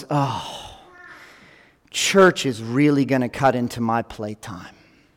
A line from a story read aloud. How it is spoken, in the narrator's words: my son sighed heavily and goes